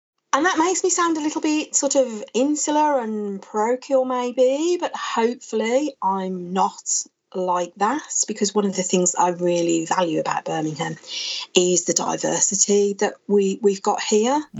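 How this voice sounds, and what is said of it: Birmingham (Brummie) English accent. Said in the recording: “a few people will probably recognise the accent. I'm a Brummie.”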